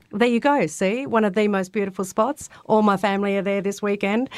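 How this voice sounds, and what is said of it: Australian accent. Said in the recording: “people can tell by your accent, not native of Japan ... Born and raised in Albany, Western Australia ... from the southwest of Western Australia”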